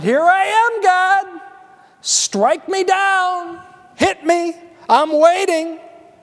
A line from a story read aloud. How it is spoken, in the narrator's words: Again, shouted